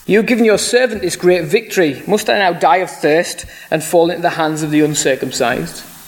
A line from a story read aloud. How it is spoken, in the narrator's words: Because he was very thirsty, he cried out to the Lord